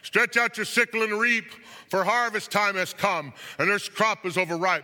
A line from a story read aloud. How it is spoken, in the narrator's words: another angel, and he shouted in a loud voice